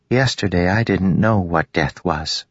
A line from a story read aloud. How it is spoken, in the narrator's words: she said